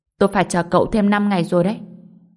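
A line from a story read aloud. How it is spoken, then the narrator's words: Cold. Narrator (Vietnamese): Ông ấy lạnh lùng nói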